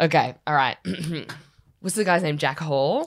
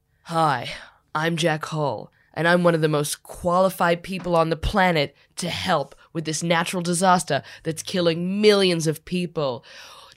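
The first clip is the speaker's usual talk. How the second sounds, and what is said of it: Parody movie trailer voice. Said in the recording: “my own impression of the trailer”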